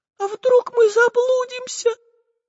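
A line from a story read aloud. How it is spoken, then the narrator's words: Tiny thin voice. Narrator (Russian): Тонюсеньким голоском произнесла Настенька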